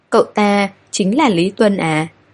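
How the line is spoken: Trembling. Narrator (Vietnamese): Hầu Ninh run run

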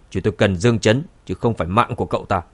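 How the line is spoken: Cold, displeased speech. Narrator (Vietnamese): hai cao thủ của nhà họ Khương nhíu chặt mày, lạnh lùng nói

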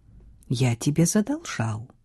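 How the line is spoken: Quiet. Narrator (Russian): тихо произнес Криспин

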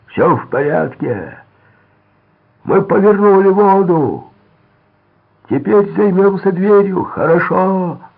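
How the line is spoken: Shouting. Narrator (Russian): крикнул Дон

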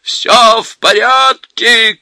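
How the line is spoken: Shouting. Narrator (Russian): кричал он

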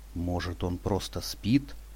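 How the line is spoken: Timidly hopeful mutter. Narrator (Russian): с робкой надеждой пробормотал я

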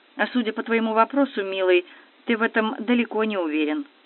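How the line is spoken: Even, level voice. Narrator (Russian): ровным голосом произнесла она

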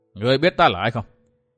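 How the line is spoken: Cold question. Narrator (Vietnamese): cất giọng lạnh lùng hỏi

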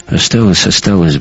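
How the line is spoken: Grumbling. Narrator (Russian): буркнул Гумилев

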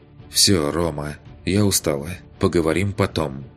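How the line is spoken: Calm tired. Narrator (Russian): Уже спокойно закончила она

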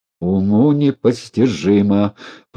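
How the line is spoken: Despairing groan. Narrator (Russian): простонал он

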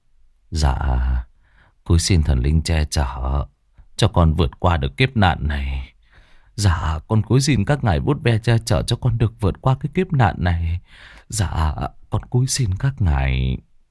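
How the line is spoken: Muttered prayer. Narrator (Vietnamese): ông ta cứ lẩm bẩm

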